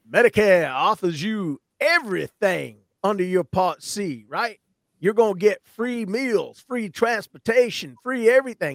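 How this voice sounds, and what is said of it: Lousy Joe Namath impression. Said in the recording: “that's Joe Namath. That's a lousy impersonation.”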